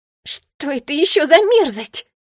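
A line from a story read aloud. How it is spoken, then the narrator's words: Disgusted shout. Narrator (Russian): С отвращением крикнула она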